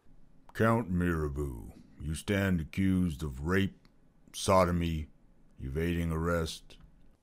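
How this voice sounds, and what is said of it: Deep older judge's voice. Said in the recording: “The deep voice of a judge, 60s, intones.”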